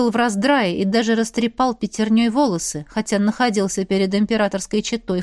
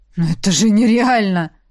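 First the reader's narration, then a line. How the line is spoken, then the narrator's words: Growled. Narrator (Russian): рыкнул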